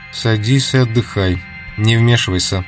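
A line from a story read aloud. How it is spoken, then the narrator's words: Calm, stern. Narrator (Russian): Спокойно и строго Клавдия сказала Дику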